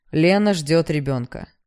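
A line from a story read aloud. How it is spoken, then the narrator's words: Loud. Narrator (Russian): громко сказал Костя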